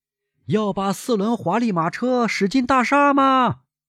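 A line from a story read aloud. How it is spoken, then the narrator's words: Calling out. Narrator (Chinese): 向导叫道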